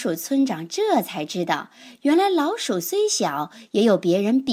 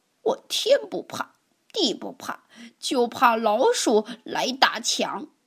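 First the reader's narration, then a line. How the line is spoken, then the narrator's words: Quiet voice. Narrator (Chinese): 强小声地说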